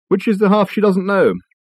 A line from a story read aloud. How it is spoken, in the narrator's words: Richard sighed